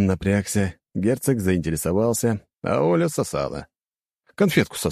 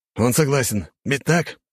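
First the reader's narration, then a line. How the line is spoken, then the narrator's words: Growl. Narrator (Russian): прорычал лысый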